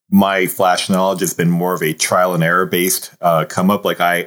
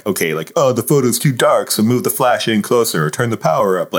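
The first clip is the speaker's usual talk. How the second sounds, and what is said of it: Exaggerated dumb-sounding voice. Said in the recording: “I even use like a dumb voice.”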